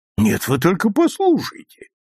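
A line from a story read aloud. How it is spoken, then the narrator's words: Indignant exclamation. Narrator (Russian): негодующе воскликнул Хегрин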